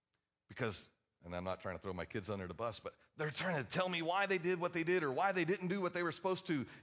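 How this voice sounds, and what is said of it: Usual voice. Nothing is said of it.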